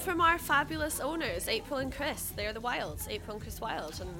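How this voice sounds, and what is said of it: Scottish accent. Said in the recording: “You haven't got a Congleton accent, have you? ... No Congleton accent, no, from Scotland.”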